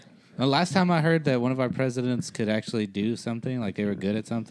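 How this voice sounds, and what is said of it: Usual voice. Nothing is said of it.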